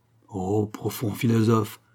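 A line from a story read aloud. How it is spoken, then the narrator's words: Mocking murmur. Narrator (French): murmura Fabien d'un ton moqueur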